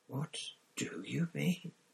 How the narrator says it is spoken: breathed Hermione

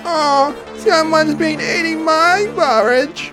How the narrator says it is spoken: cried Baby Bear

